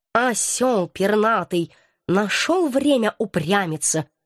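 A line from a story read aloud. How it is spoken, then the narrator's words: Grumbling cat, under breath. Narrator (Russian): буркнул себе под нос кот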